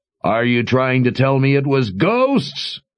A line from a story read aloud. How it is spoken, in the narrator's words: Jigang bellowed